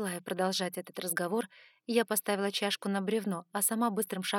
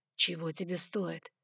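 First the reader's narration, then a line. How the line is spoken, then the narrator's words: Breathed out softly. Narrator (Russian): выдохнул он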